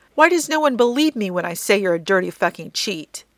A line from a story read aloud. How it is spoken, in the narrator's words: Jensen howls